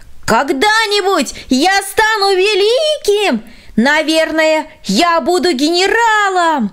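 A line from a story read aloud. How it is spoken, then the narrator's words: Shouting from afar. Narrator (Russian): Еще издали он прокричал ей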